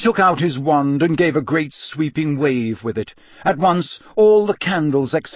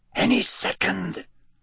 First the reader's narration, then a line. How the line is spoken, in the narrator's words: Lee Jordan whispered, 2 seats away from Harry